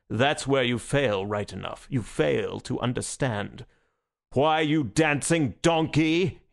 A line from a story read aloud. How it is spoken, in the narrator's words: he roared